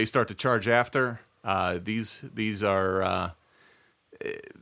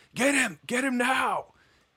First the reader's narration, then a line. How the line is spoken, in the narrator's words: And he's yelling